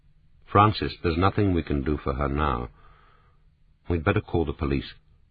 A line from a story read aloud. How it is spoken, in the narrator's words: James DeWitt said gently